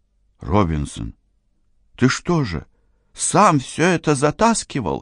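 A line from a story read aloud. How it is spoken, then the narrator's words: Exclamation. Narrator (Russian): воскликнул Карл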